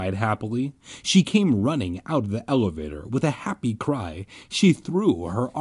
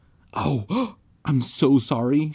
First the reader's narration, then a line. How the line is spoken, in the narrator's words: she cried